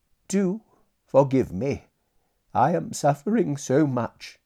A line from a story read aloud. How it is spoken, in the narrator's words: said brokenly